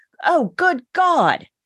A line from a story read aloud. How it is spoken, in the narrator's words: Bailey and then exclaimed